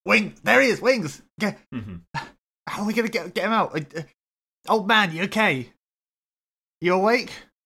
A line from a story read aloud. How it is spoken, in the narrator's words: You shout out